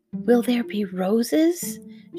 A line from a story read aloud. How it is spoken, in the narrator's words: whispered